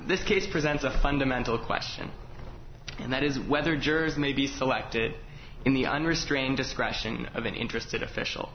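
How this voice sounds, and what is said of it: Hoarse voice from laryngitis. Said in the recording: “I'm recovering from laryngitis, so I hope you'll excuse my voice this morning.”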